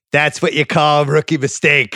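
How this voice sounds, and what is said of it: Imitating CT's accent. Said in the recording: “I just love this Vassal accent.”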